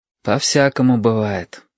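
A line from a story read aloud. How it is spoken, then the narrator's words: Sigh. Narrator (Russian): вздохнул Юртанка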